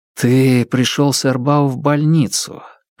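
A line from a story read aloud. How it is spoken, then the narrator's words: Hesitant, careful speech. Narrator (Russian): подбирая слова, проговорил он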